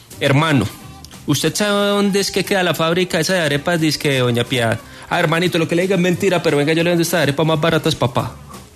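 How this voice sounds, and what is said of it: Put-on regional accent. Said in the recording (Spanish): “Ese acento, ¿de dónde es?”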